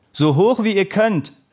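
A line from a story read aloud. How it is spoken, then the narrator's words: Calling out. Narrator (German): rief der Trainer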